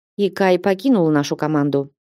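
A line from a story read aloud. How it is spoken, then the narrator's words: Level, even tone. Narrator (Russian): ровным тоном сообщил Демиан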